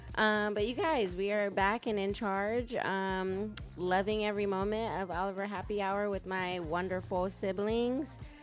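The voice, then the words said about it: Hoarse, strained voice. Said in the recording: “my voice is gone because, you know, I went to a Dodgers game recently and I was screaming”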